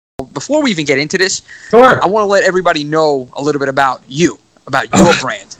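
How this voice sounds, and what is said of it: Very thick New York accent. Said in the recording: “I love your fucking accent, my friend. It is fantastic ... It's like the thickest New York accent I've ever heard”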